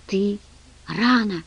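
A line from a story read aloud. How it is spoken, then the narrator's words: Excited whisper. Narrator (Russian): взволнованно прошептала она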